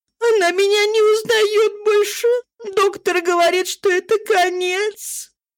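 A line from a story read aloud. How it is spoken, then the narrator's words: Tearful. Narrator (Russian): Служанка проговорила сквозь слезы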